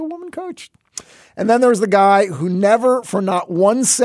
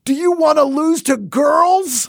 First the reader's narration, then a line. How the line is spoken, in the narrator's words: a woman coach of a boys' team we played in sixth grade who, with the game tied 1-1, screamed